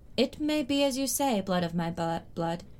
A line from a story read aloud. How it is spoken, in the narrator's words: Dany replied gravely